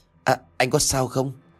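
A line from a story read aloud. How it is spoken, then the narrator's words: Trembling stammer. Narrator (Vietnamese): thằng nhãi này run rẩy ngay lại, miệng lắp bắp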